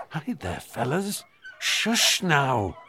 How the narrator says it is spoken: Michael, nervously

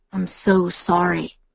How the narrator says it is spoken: he murmured again and again

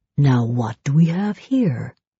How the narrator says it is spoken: he murmured

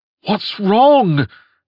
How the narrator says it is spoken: cried Toys, a young man whose normally stern face twisted into a look of mingled shock and concern

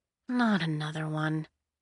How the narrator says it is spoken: she muttered

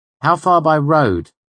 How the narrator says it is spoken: I asked

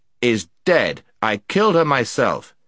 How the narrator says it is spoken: said the prince sternly

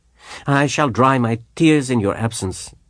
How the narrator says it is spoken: said the professor gaily

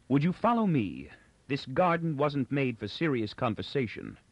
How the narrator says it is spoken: Inber said coldly

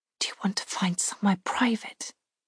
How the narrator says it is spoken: I whisper

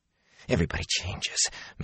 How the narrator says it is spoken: Matt rasped

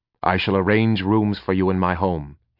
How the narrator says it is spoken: he added quickly

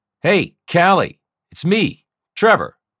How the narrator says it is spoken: I shouted above the din of the storm

